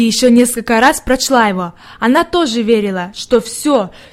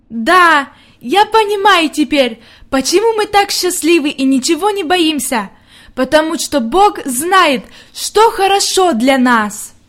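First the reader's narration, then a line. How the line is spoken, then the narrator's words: Loud. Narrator (Russian): она громко сказала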